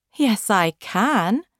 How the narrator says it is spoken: the giraffe said happily

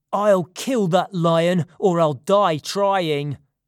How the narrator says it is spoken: shouted angrily

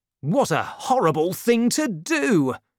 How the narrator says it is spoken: cried Porthos

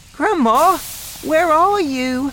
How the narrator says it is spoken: cried

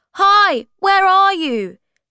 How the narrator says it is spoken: he shouted

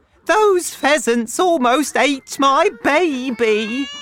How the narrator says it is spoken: cried

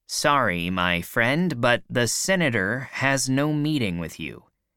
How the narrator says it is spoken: he said

